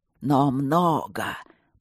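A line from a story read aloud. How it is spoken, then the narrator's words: Hoarse rasp. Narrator (Russian): прохрипел он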